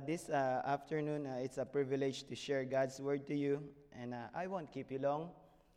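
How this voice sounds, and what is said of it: Hoarse, strained voice. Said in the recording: “please excuse my voice... I'm starting to lose my voice”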